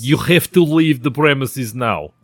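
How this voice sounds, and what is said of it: Poor put-on Russian accent. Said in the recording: “It's like me doing a Russian accent ... it kind of reminds me of my Natasha. It's not good. It needs a lot of work.”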